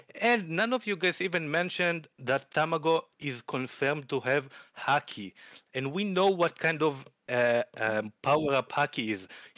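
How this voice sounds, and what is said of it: Speaks English with an Israeli accent. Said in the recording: “I noticed an accent there. ... I'm from Israel.”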